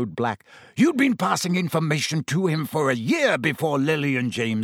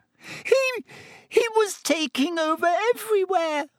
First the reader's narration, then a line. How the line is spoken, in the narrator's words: gasped Pettigrew